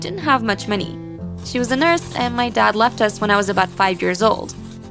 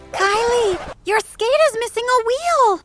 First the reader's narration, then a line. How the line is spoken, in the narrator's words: Bridget screamed